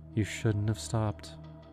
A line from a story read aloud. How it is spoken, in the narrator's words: she said softly, almost regretfully